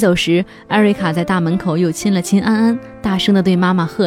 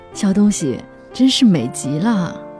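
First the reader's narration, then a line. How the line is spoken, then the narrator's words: Hushed. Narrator (Chinese): 他压低了声音说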